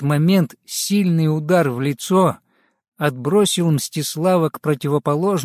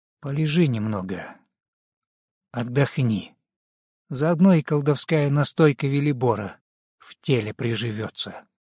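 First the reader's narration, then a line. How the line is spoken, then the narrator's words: Quiet. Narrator (Russian): Руслав негромко сказал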